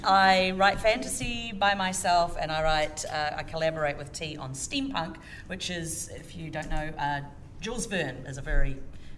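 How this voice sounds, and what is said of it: New Zealand accent. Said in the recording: “The accent is from New Zealand.”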